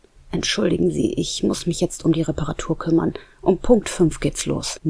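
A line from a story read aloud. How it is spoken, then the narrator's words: Murmuring. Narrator (German): murmelte er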